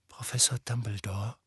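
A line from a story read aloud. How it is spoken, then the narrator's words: Very quiet. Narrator (German): sagte Harry sehr leise, denn Dumbledore, der immer noch auf das Denkarium starrte, schien völlig in Gedanken verloren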